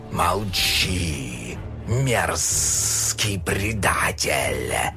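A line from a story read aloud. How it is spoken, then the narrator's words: Menacing hiss, snake. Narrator (Russian): Угрожающе зашипел змей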